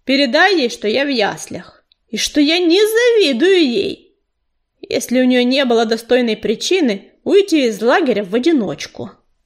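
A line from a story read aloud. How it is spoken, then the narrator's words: Grumbling. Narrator (Russian): проворчал он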